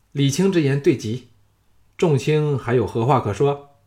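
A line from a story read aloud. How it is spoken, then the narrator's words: Delighted exclamation. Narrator (Chinese): 小盘闻之大喜，叫绝道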